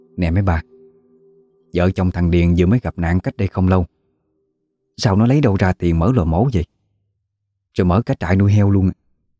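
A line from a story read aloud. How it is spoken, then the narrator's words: Soft, quiet gossip. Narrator (Vietnamese): Một người khẽ nói nhỏ với mấy bà còn lại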